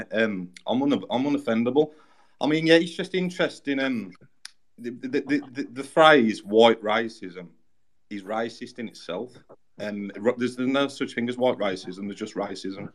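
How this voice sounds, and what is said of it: English Peaky Blinders-style accent. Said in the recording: “my English Peaky Blinder accent”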